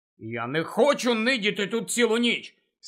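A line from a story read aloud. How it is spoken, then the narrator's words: Angry objection. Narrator (Ukrainian): сердито заперечив Гаррі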